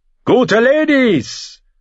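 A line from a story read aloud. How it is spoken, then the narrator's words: Calling out. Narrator (German): rief er den hochgeborenen Mägden zu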